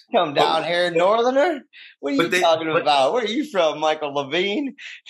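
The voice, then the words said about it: Put-on Mississippi Southern accent. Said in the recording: “everybody in Jackson, Mississippi who hears this podcast, I want you to know it's out of love that I do that accent ... I really need to contort my face to make that voice”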